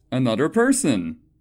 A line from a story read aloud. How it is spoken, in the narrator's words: I exclaimed, hoping to sidestep the awkwardness